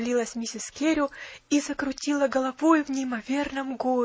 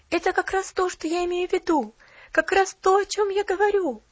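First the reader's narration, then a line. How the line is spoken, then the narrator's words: Excited, eager chiming in. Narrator (Russian): Взволнованно подхватила Поллианна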